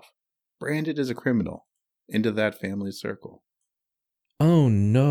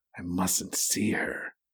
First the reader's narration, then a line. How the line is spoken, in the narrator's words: he whispered to himself